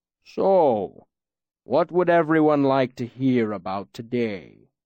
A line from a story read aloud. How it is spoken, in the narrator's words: Scarpy rumbled, his deep voice rolling out like distant thunder